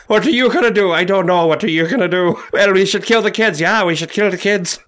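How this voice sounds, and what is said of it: Put-on Irish accent. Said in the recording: “Everybody just has an Irish accent.”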